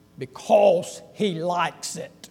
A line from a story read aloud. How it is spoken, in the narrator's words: Clint Eastwood, Dirty Harry, in that guttural voice